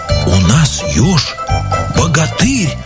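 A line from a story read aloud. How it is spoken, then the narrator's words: Frightened animals whispering. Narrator (Russian): шепотом со страху говорили звери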